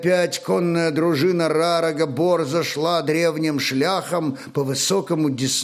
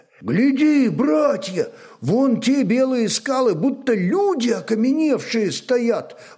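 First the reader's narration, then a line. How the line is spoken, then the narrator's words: Excited exclamation, warrior. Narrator (Russian): воскликнул кто-то из воинов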